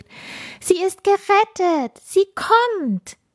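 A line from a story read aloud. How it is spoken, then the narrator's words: Excited group calling. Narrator (German): Die ersten Sternenkinder und Schneeflocken riefen aufgeregt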